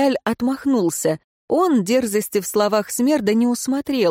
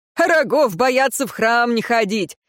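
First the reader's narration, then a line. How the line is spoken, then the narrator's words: Chuckling coachman. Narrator (Russian): хохотнул возница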